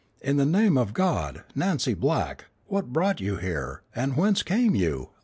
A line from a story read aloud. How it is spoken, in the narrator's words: I exclaimed